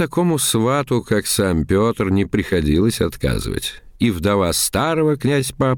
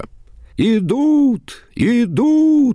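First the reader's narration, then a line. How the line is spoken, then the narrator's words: Boys shouting from trees. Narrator (Russian): закричали засевшие на деревьях мальчишки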